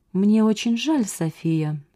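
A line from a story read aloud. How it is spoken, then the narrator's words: Soft but threatening. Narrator (Russian): сказал он мягко, но его тон при этом был угрожающим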